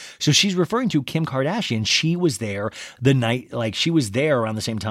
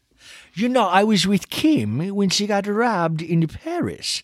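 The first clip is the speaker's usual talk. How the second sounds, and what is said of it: Imitation of Diana Jenkins's accent. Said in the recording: “Diana Jenkins is like, "You know, I was, I can't do her accent.”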